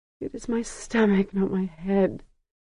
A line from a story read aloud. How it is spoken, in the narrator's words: Sesarach whimpered